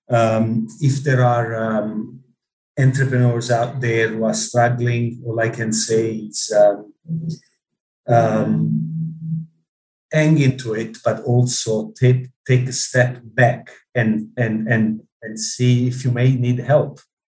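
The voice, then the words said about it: Speaks with a noticeable accent. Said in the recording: “despite my accent.”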